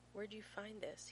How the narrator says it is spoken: He murmurs, and his voice sounds brittle even to his own ears, fracturing beneath the weight of 100 other questions he wants to ask

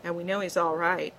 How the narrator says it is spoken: he said firmly

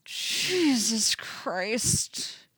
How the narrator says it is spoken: Eddie moans

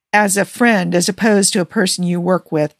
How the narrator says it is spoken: Tony says, a shade too smoothly

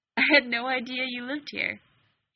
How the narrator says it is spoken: he started, and then bit his lip to keep in the snort that would send them both tumbling into laughter

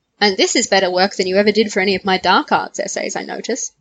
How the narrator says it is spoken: Remus said with a gently teasing grin

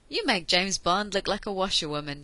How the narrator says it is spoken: Jack said with complete conviction

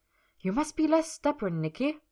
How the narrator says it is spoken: Miss Gerda had told him harshly

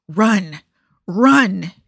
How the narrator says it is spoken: he snarled

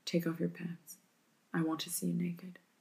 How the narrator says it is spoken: He murmurs

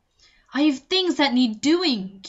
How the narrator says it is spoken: Q snapped

